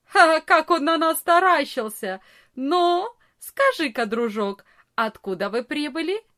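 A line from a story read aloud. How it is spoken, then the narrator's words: Big boy's loud laughing. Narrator (Russian): самый большой из ребят громко не засмеялся и не сказал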